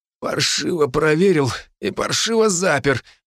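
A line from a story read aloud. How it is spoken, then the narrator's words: Weak, through gritted teeth. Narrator (Russian): процедил я, еле стоя на ногах от слабости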